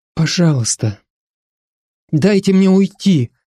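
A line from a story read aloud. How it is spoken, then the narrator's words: Pleading. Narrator (Russian): взмолилась она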